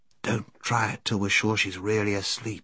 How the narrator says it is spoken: whispered Scrub

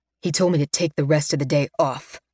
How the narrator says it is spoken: he growls

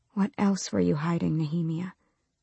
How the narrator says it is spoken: She whispered into the darkness

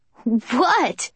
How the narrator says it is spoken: Kenji laughs, undeterred

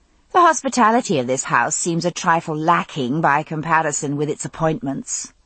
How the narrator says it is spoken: I said, as haughtily as I could manage under the circumstances, which wasn't all that much

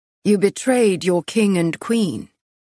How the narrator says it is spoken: Castile said, his voice showing no emotion

